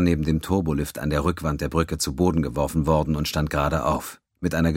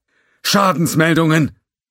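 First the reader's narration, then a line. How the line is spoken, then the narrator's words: Bellowed over sirens. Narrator (German): Über den Lärm der Sirenen und das Stimmengewirr, das von der Kommunikationsstation zu ihr durchdrang, brüllte Mock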